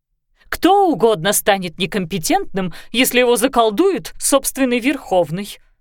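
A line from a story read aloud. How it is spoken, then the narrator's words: Exclaimed. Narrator (Russian): воскликнула Ида Амвросиевна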